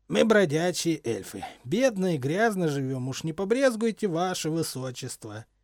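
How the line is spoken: Hoarse chuckling leader. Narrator (Russian): хрипло хохотнул вожак

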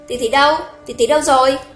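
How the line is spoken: Alarmed loud question. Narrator (Vietnamese): Hồng Ngọc lập tức làm cả kinh, lớn tiếng hỏi

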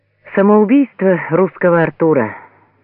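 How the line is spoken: Said with a sigh. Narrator (Russian): вздохнув, проговорил Звонарев

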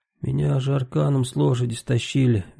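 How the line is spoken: Guilty voice. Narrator (Russian): виноватым голосом сказал Василий

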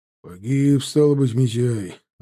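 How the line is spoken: Sighing. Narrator (Russian): вздохнув, произнес Чанов

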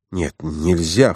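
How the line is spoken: In an undertone. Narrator (Russian): вполголоса сказал Франц

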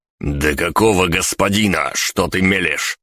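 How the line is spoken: Growled. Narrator (Russian): прорычал я

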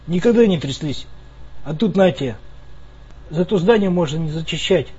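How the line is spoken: Sighing. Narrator (Russian): вздохнул я

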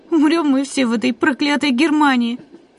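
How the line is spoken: Sob. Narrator (Russian): всхлипнул кто-то

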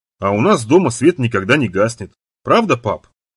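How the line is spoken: Loud ringing child's voice. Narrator (Russian): Голос Майкла звенел слишком громко

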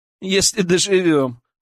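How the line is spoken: Laughing. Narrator (Russian): рассмеялся Илья

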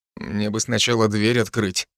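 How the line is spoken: Curt gloomy. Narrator (Russian): бросил я мрачно

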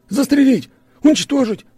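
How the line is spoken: Shouting. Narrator (Russian): Орал

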